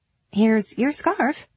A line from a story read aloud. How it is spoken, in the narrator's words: Gwen said tightly to Mary